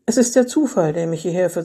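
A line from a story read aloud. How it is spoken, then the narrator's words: Calm voice. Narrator (German): sagte Eva mit ruhiger Stimme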